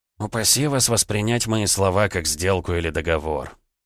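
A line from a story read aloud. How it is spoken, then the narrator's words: Quiet prince. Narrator (Russian): тихо произнес князь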